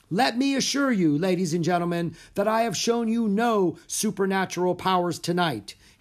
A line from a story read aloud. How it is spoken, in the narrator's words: Harry shouted